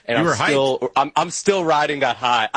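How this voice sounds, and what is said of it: Speaking very loudly. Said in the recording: “I'm talking very loudly”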